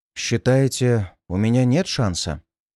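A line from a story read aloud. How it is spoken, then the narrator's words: Calm clarifying question. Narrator (Russian): уточнил я, совершенно спокойно воспринимая новости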